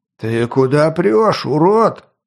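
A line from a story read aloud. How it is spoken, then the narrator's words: Angry man roaring. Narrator (Russian): взревел облитый пивом мужик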